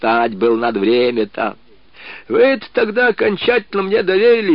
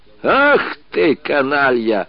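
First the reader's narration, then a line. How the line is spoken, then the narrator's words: General laughing. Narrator (Russian): засмеялся генерал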